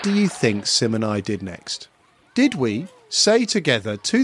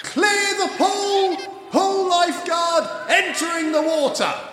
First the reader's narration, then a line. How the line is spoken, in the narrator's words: a lifeguard blew his whistle over and over again and shouted